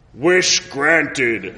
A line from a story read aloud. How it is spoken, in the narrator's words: bellowed Shenron again